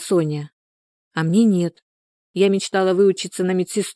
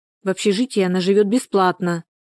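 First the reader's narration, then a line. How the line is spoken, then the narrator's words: Plain. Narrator (Russian): сказала Соня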